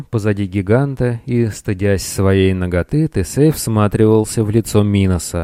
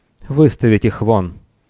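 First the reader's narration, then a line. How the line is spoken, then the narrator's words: Slightly irritated voice. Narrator (Russian): царь слегка раздраженным голосом произнес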